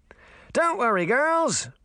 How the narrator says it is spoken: Puck shouted, almost laughing

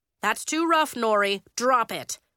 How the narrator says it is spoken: Coach said sternly

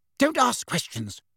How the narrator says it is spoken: Aunt Petunia snapped

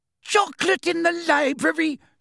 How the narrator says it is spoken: screamed

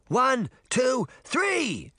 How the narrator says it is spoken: Sabrina screamed

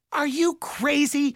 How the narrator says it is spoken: Mallory hollered at her brother

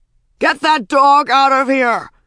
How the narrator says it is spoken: shouted Handsome Doctor

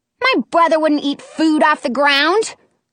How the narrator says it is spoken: I yell

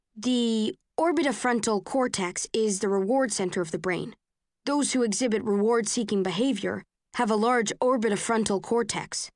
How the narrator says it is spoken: someone says

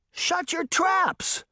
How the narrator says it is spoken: She shouted at both of them

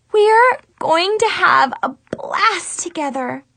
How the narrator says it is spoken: Chloe squealed

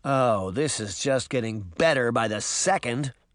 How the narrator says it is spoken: Sabrina said sarcastically

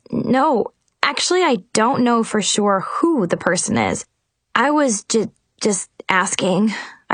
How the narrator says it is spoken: I stammered

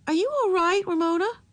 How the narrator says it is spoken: Her voice was anxious

